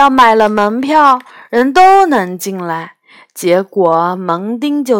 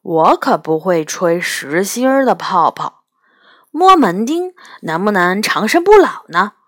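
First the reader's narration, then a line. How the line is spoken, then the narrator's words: Sudden question. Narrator (Chinese): 元宝突然问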